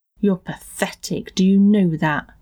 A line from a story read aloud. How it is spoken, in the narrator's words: he sneered